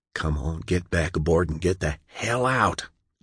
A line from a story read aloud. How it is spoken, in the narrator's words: John whispered